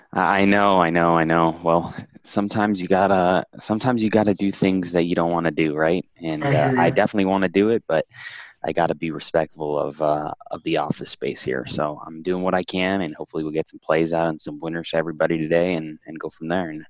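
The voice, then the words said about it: Quiet, soft NPR-host style voice. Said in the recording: “like a mix of an NPR host and a librarian right now ... my NPR voice”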